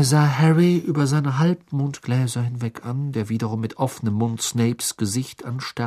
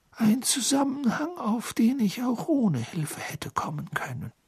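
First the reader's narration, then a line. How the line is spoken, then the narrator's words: Sighing. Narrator (German): seufzte Dumbledore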